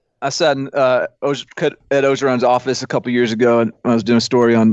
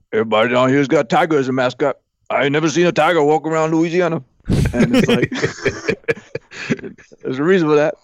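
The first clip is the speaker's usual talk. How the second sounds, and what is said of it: Imitates another person's voice. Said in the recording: “my Edo impression”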